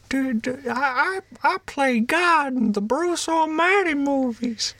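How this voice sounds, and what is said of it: Imitates another person's voice. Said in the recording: “Morgan Freeman, here we go. ... That's not even remotely close...”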